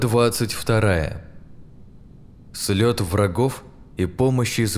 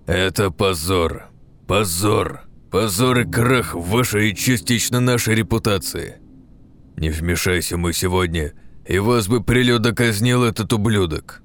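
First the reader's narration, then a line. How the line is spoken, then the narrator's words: Irritated, clipped. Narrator (Russian): Раздраженно отчеканил Габсбург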